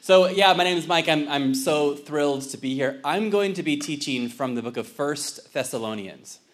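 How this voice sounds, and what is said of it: Generic Southern California accent. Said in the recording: “I just have a generic Southern California accent like everybody else”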